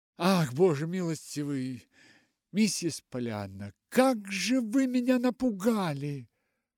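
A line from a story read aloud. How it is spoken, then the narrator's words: Breathless gasp. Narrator (Russian): выдохнула Нэнси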